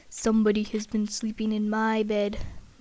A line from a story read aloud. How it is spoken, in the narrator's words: Father Bear growled in his great big voice